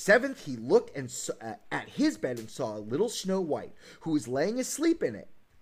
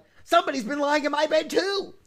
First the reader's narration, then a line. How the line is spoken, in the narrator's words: each called out